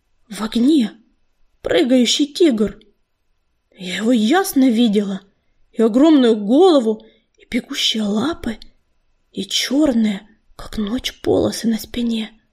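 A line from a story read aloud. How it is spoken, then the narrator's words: Hoarse. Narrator (Russian): хрипло заговорила целительница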